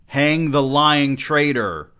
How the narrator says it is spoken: Roz shouted

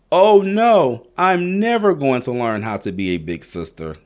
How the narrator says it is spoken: cried Zaria

